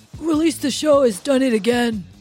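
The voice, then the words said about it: Really bad impression of a colleague. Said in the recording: “That's a really bad Ryan impression ... really bad.”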